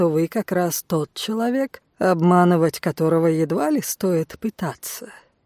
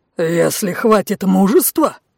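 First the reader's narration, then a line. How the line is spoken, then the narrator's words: Roaring lion. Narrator (Russian): зарычал Лев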